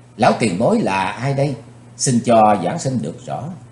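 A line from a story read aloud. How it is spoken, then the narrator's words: Stern question. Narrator (Vietnamese): Chàng lặng đi một chặp rồi nghiêm giọng hỏi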